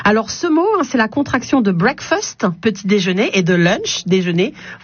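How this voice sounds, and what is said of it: English words in English accent. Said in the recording (French): “ce bel accent anglais qui est le mien”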